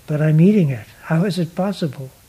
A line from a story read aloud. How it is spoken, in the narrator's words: Mardana laughed and said